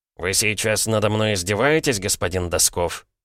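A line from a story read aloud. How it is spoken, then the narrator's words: Suddenly calm, cold. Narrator (Russian): Бергер внезапно успокоился и теперь говорил холодно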